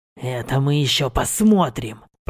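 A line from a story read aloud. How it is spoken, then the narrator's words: Hissed. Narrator (Russian): прошипел он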